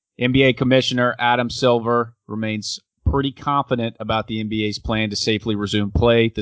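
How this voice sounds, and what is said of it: Jim Rome impression. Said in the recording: “my best Jim Rome impression”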